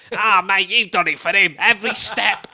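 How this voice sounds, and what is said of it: Put-on Manchester accent. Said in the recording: “It's still about the accent as well, isn't it? ... if you did the Manchester one”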